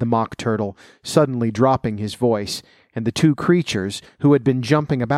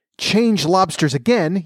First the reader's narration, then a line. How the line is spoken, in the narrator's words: yelled the Gryphon at the top of his voice